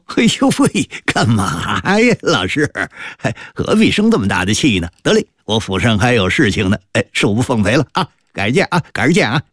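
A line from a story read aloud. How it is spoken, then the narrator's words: Playful, giggling. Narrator (Chinese): 赖塔嬉笑着说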